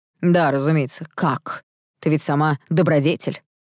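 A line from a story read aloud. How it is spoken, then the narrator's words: Snorting scornfully. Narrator (Russian): фыркнул он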